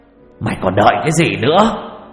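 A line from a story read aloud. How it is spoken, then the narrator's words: Shouting. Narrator (Vietnamese): Hét một câu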